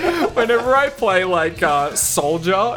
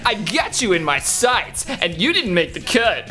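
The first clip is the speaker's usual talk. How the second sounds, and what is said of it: Silly accented Sonic-like voice. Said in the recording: “I change his voice ... I do it in like that really stupid accented Sonic voice”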